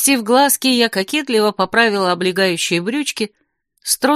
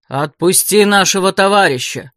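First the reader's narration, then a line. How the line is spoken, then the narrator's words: Stern threatening command. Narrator (Russian): грозно приказал он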